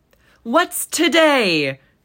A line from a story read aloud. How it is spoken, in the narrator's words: cried Scrooge, calling down toward a boy